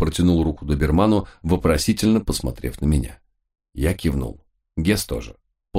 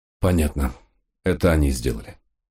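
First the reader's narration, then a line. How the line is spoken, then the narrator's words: Sigh. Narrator (Russian): вздохнул я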